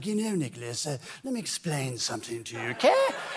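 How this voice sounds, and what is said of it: Imitated mid-Atlantic continental accent. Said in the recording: “he liked to speak with this mid Atlantic accent ... I brought his voice back for Dracula ... he spoke in that continental accent”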